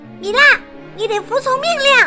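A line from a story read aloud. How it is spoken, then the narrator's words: Loud shout. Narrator (Chinese): 我大喊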